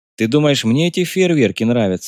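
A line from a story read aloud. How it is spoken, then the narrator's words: Plain. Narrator (Russian): ответил майор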